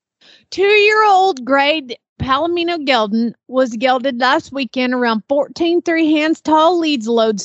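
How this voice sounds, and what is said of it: Southern Oklahoma accent. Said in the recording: “my accent, my Southern accent is tipping very Oklahoma these days”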